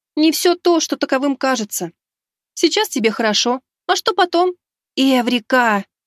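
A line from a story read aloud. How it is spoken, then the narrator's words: Sudden inner exclamation. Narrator (Russian): Неожиданно воскликнула в голове Мика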